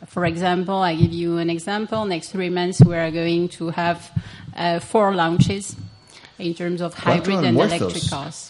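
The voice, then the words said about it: Non-native accented English. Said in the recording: “It's my English accent”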